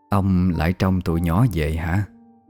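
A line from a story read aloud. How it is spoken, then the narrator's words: Sighing soft question. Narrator (Vietnamese): bà Năm thở dài hỏi nhỏ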